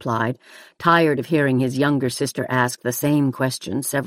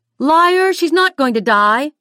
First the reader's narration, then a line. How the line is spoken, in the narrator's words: shrieked Nicole